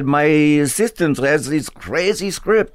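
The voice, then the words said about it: Put-on Serbian accent. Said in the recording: “that's my Serb accent”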